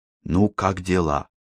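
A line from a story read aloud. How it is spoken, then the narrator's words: Whispered question. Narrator (Russian): шепотом поинтересовался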